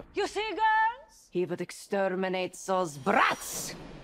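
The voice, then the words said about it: Inconsistent vaguely Eastern European accent. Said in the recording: “Anne Hathaway does this accent throughout the whole movie that at times is vague Eastern European. At other times, it is almost Irish sounding. At other times, it's borderline like Jamaican. It is all over the place.”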